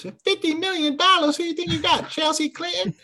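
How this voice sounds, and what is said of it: Imitates another person's voice. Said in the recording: “It's a pretty good Chris Tucker impersonation you got there.”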